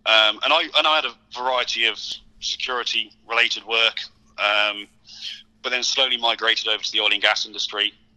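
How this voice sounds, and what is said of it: British accent. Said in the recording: “you're from the UK, obviously your accent as well”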